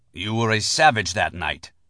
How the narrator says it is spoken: the rabbi spat at Max

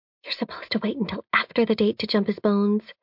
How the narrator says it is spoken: she whispers

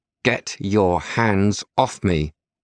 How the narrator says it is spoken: says through gritted teeth

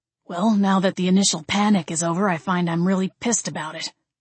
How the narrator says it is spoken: he grumbled

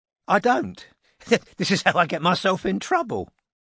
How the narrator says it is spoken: she said, with a little laugh

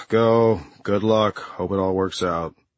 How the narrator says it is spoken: he finally sighed and said

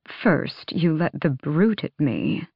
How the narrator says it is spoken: Vernon drawled

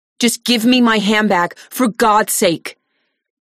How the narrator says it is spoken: she yells

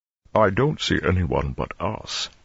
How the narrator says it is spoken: he rumbled

